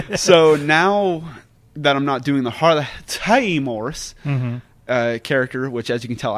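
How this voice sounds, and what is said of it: Usual voice. Nothing is said of it.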